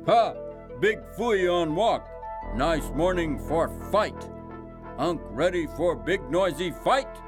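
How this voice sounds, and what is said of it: Primitive grunting coyote character voice. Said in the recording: “Kyote dialect, shall we say, a primitive grunting version of universal doglish”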